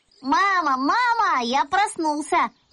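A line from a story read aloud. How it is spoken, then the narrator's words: Excited shouting. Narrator (Russian): закричал я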